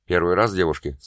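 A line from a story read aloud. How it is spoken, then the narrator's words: Plain. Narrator (Russian): спросил демон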